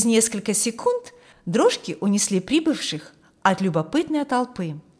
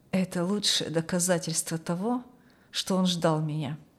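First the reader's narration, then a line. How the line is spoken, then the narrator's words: Muttered under breath. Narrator (Russian): пробормотал вполголоса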